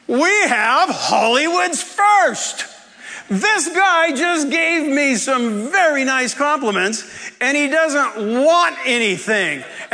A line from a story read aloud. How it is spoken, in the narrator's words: he yells to the entire class